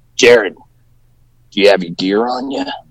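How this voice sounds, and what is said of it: Impression of a wrestling trainer. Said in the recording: “my best Crotch impersonation”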